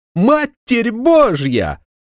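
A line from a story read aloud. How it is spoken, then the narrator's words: Squealing. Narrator (Russian): Взвизгнул он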